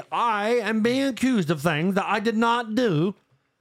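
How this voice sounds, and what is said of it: Imitates another person's accent. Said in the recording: “His accent's stronger than what I can do. I'm not very good at... You did an accent better earlier.”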